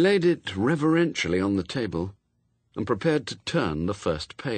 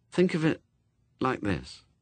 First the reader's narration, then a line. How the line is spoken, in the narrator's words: he said quietly